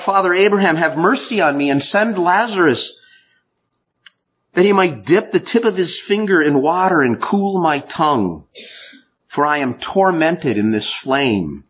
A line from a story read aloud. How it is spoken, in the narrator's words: the rich man cried out